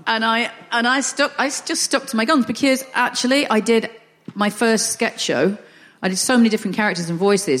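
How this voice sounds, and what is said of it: Northern English accent. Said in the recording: “I'm quite happy with a Northern accent ... if you sound Northern.”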